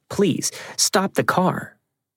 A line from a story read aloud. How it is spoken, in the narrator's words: we pleaded with him